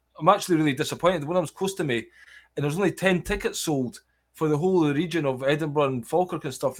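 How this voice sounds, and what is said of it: Scottish accent, fast speech. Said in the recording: “I do have a Scottish accent and I can get a bit excited and talk quite fast ... crazy fast Scottish patter”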